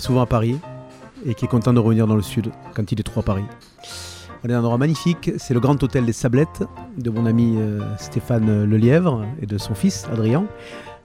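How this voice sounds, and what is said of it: Southern French Var accent. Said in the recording (French): “l'accent du Sud ... j'ai plus l'accent euh, varois que l'accent lillois”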